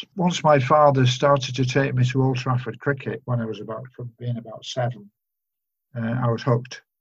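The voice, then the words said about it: Non-local regional English accent. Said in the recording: “you might detect from my accent that I'm not from these parts”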